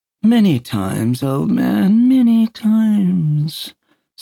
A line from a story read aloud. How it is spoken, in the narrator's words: said Peter dreamily